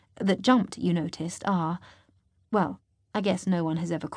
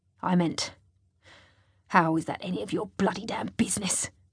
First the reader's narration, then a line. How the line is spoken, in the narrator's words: He growls